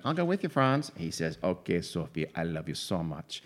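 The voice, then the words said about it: Odd put-on South American-sounding accent. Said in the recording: “No idea what that accent is. ... it's not Austrian. South American. ... That just kind of slipped out.”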